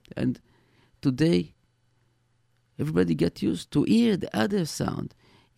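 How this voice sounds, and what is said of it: Heavy accent. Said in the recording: “my accent, my heavy accent”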